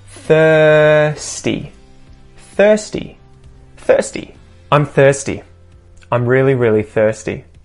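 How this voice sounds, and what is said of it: Australian accent. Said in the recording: “Notice with my Australian accent, I'm not saying that ah.”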